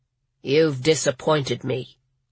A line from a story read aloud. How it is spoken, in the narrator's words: Canote said in a flat voice